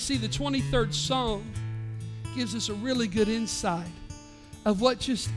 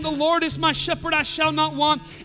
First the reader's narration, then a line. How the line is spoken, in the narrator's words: quoting